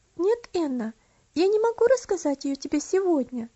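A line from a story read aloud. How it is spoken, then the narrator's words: Calm but firm. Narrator (Russian): спокойно, но твердо ответила Элси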